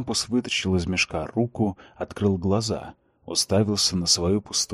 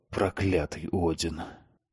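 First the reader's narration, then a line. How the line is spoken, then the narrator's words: Hissed. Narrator (Russian): прошипел он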